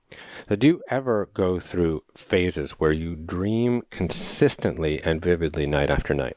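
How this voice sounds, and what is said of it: Silly, ridiculous tone of voice. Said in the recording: “the silly and ridiculous tone of my voice”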